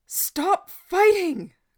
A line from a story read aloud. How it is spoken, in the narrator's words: Gordon howled the words